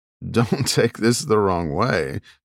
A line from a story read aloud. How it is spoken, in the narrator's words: Jack said with a laugh